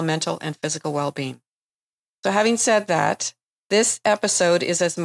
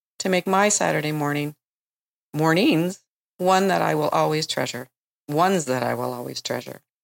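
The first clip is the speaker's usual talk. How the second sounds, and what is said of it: Choked-up, emotional voice. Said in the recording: “I'm getting a little choked up.”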